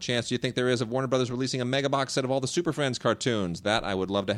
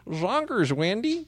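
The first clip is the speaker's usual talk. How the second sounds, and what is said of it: Cartoon character voice impression. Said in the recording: “That's my best Marvin impression.”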